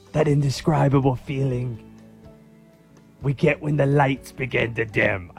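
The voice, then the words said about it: Unidentified put-on accent. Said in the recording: “I don't know what accent I'm doing.”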